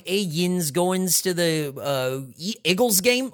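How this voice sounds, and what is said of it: Put-on Pennsylvania accent. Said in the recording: “the way that they say water ice and the way that like that accent is so funny ... like the way they talk”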